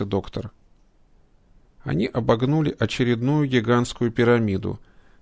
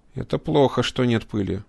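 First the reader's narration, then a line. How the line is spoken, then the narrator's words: Grumbling mutter. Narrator (Russian): пробурчал кибернетик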